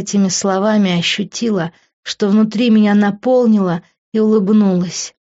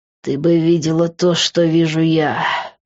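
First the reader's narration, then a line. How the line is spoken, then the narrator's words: Hoarse male voice. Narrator (Russian): прохрипел он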